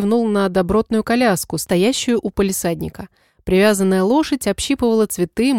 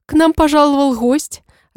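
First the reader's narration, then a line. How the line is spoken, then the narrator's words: Cook's joyful announcement. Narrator (Russian): радостно сообщила кухарка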